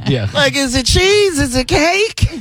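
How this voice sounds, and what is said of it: Exaggerated white guy voice. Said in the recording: “you do a really good white impression ... that's my Jerry ... a white accent”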